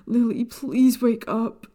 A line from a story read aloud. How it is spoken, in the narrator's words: He cried